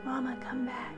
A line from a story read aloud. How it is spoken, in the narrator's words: I whispered, still not believing what I was seeing